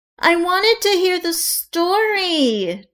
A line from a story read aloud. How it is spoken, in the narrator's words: Juliet whined